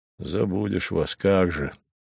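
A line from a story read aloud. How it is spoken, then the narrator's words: Pleased mutter. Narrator (Russian): довольно пробормотал Савва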